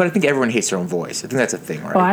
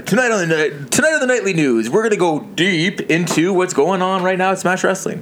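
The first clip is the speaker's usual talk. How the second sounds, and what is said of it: Newscaster radio voice. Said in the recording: “Do you have a radio voice? Like a newscaster voice? ... That's good radio voice.”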